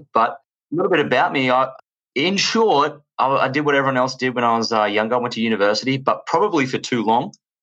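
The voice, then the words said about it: Australian accent. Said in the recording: “As you can tell from my accent, I am from Australia”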